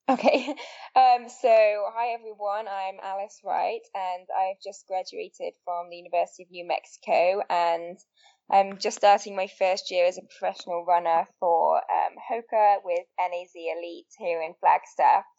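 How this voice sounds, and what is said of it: English accent. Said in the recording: “As you can probably tell from my accent, I'm not from the US originally. I'm originally from England”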